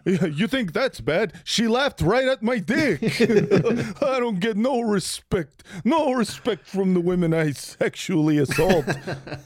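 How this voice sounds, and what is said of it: Imitates another person's voice, cartoonish. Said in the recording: “that's what he sounds like ... that's exactly ... you sound good. Like a cartoon dog doing an impression of Rodney Dangerfield.”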